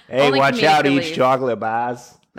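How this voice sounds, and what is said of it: Put-on Boston accent. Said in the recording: “I don't know why I did that with a Boston accent.”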